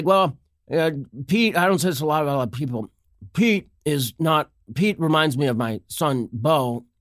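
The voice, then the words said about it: Imitates another person's voice. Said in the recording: “my Joe Biden impersonation is beginning to bloom into its full flower”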